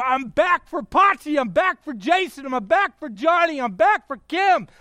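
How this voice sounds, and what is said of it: Excited yelling. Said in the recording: “Sorry to yell... you sound angry... I'm not angry. I'm really excited.”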